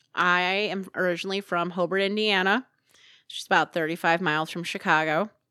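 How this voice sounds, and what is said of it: Northwest Indiana regional accent. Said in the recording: “People say I have an accent ... People ask me if I'm from up north, like Minnesota. Jason says my region rat accent gets thicker when my parents come to visit”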